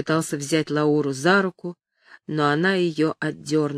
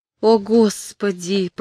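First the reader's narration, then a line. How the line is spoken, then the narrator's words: Dejected, sinking voice. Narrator (Russian): промолвила упавшим голосом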